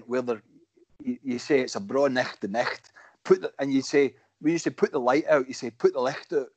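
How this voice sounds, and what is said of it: Broad Cumnock Scottish dialect. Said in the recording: “a Cumnock accent”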